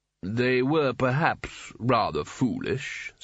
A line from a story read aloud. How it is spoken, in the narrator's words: said Carding smoothly